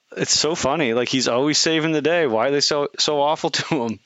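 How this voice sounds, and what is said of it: Usual voice. Nothing is said of it.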